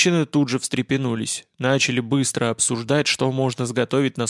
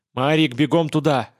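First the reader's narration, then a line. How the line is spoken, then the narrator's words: Sharp barked order. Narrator (Russian): рявкнул я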